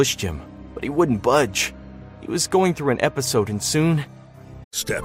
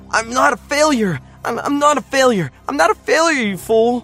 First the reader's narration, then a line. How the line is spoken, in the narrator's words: screaming